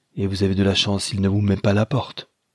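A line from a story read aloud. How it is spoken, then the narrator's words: Grumbling. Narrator (French): grommela-t-il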